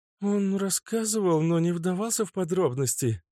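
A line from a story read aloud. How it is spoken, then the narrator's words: Uncertain young woman. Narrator (Russian): неуверенно ответила девушка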